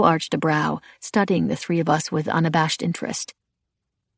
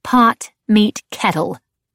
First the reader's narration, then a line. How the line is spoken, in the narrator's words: Coco snapped